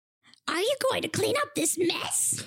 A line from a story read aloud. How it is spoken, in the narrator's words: She screeched